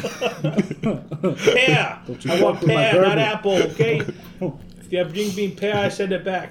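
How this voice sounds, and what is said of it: Put-on New York accent. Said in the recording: “He's from New York again. ... Back to New York, man. It's a go-to accent.”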